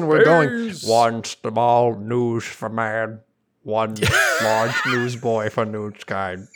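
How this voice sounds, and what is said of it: Imitates an astronaut's voice. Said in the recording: “that was a great impression of our most brave astronauts”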